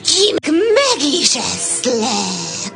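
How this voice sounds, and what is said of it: Imitates a wolf's voice. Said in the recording (Hungarian): “A róka újból a farkas hangját utánozta”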